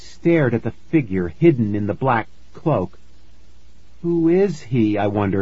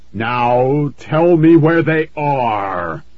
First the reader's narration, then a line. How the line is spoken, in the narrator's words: the voice boomed